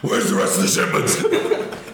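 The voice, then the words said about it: Imitates another person's gruff voice. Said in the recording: “when he does that fucking voice ... it's just the voice is just it's such a funny little thing”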